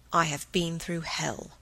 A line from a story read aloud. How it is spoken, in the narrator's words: lowered his voice